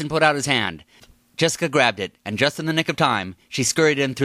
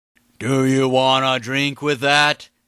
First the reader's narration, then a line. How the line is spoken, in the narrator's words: slurred speech